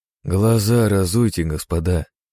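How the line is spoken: Tired. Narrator (Russian): устало произнес

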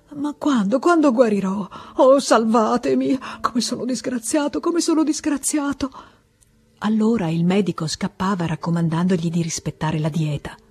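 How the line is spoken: Stammering between sobs. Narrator (Italian): Balbettava tra un singhiozzo e l'altro

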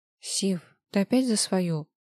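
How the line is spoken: Weary sigh. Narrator (Russian): Устало вздохнула Маша

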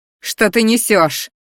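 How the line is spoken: Roar. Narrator (Russian): взревела я

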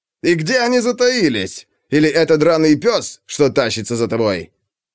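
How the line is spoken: Loud laughter. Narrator (Russian): Он слишком громко рассмеялся собственной шутке

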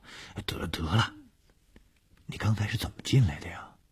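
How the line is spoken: Soft, ticklish. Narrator (Chinese): 小梅感到面颊被他蹭得痒痒的，就小声地说

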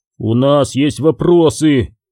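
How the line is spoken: Growl. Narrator (Russian): прорычал Каннис

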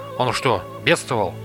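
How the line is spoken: Plain. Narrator (Russian): спросил Рупас

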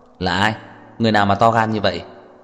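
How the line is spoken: Angry. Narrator (Vietnamese): Trang Hạo Nhiên tức giận nói

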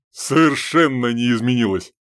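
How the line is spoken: Cheerful snort. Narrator (Russian): весело фыркнул Чеботурин

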